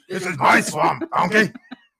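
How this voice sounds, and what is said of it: Poor imitation of cartoon ogre voice. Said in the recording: “That's the worst Shrek imitation ever.”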